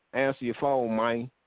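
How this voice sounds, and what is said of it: Terrence Howard impression. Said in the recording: “In my Terrence Howard voice,”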